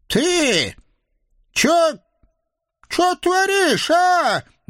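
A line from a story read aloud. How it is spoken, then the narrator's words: Squeaking, stunned old woman. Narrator (Russian): не своим голосом пропищала в конец обалдевшая старушка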